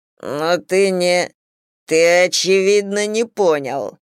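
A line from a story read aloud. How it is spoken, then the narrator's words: Growling. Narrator (Russian): прорычал Миша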